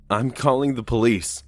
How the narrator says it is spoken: I yelled for some reason

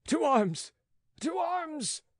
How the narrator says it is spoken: cried the runaways

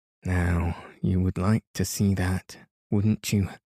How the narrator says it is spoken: said

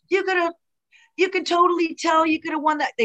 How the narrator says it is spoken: they were like yelling

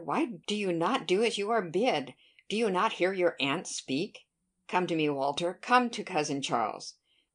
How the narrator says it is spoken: cried Charles Hayter

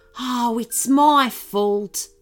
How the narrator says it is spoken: said the musky rat kangaroo sadly

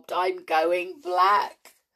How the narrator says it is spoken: she sobbed

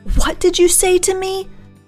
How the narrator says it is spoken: she screamed at me

